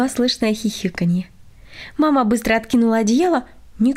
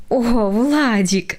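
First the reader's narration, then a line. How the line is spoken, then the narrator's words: Involuntary laugh, mother. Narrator (Russian): невольно рассмеялась мама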